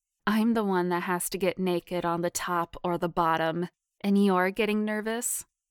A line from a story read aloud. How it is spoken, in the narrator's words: Courtney chuckled, teasing her friend